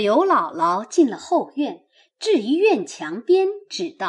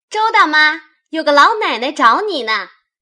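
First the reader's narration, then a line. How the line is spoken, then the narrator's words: Hurried call. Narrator (Chinese): 忙又叫道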